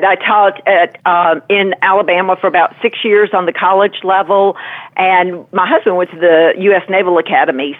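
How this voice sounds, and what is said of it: Southern American drawl. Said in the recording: “are we a native of Louisiana? ... I'm back to a hopeless Southern drawl.”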